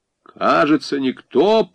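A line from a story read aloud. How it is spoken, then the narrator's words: Booming drone. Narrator (Russian): прогудел Негуш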